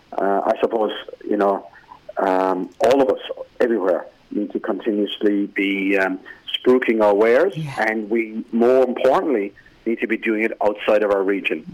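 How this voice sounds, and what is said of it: Distinctive, pleasant regional accent. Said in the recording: “use that accent of yours ... I just love listening to you talk”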